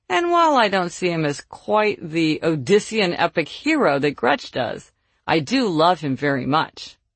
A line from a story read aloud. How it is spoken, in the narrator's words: got a big laugh when she continued